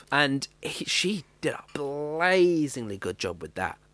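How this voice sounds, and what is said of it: Brief slip into Australian accent. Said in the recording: “That went Australian there for a second. I don't know why. I can't do an Australian accent normally.”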